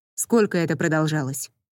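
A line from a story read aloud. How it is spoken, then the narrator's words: Dry question. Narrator (Russian): сухо спросил он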